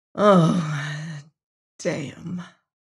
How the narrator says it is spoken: remarked wearily

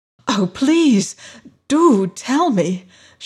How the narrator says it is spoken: she cried eagerly

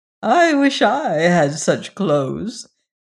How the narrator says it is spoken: answered Lady Maria, and she chuckled again

